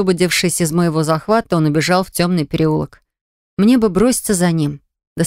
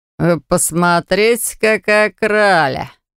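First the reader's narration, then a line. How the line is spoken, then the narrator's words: Snort from behind. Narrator (Russian): хмыкнули позади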